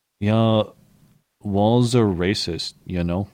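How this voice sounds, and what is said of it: Slow Native American impression of Nathan Phillips. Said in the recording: “That was a really good impression ... He stuck for like a minute at a Ruth Bader Ginsburg pace ... You really sounded Indian”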